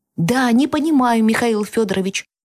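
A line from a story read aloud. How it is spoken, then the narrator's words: Exclaiming, then lowered voice. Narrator (Russian): воскликнул тот, но сразу же понизил голос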